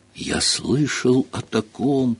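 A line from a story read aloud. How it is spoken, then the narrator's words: Said in a strangled voice. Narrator (Russian): произнес он сдавленным голосом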